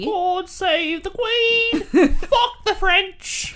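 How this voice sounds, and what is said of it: Put-on British accent. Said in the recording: “we have more UK listeners ... going on with that accent for a good few minutes”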